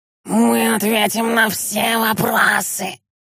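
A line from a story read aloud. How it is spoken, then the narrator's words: Hoarse. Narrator (Russian): хрипло произнес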